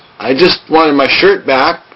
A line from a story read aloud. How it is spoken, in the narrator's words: Charlie said in a trembling voice